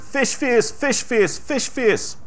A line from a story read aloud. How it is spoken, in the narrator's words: we laughed, yelling